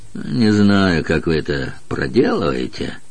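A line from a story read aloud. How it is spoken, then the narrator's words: Grumbled. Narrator (Russian): буркнул он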